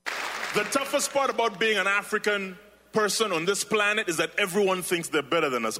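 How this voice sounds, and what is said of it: Ugandan English accent. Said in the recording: “my accent. She's like, excuse me, you have a bit of an accent. ... I was born and raised in Kampala, Uganda.”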